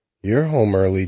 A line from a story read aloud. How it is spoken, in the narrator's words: Jamie said